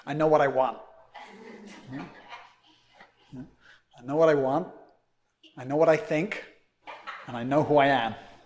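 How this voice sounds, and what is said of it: Put-on New York accent. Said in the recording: “I'm trying to do a New York accent.”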